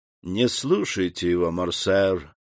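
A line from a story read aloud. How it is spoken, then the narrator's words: Lazy. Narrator (Russian): лениво заговорил Дебре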